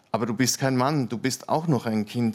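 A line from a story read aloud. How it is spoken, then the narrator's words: Plain. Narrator (German): sagte Sabrina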